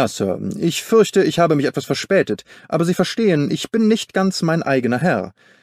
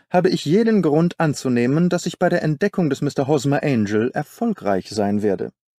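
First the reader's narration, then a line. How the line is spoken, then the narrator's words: Calm. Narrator (German): sagte Holmes ruhig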